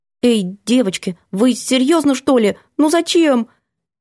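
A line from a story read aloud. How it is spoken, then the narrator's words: Uncertain squeak. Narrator (Russian): Я неуверенно пискнула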